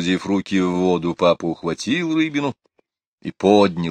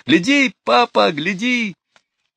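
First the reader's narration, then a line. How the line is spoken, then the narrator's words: Shrieking, shouting. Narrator (Russian): Лора взвизгнула и закричала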